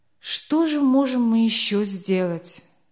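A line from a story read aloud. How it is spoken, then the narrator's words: Glum, dejected question. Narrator (Russian): спросил Ланкенстер уныло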